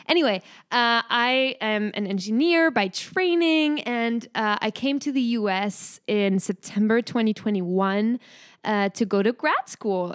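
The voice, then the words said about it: French accent. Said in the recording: “hear it from my accent, but I am from France. I can't really hide it”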